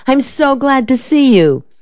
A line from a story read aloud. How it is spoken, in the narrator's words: she exclaimed